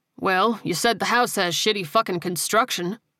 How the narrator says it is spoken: he said dryly

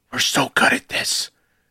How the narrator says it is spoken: hearing him whisper

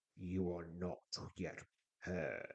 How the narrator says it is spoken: he says, his voice reminiscent of the rumble of distant thunder

